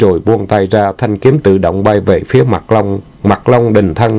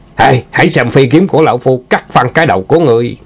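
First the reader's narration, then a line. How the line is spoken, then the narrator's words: Shouted. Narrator (Vietnamese): thét lên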